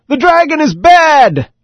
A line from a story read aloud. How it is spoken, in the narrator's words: a small boy yelled out from the audience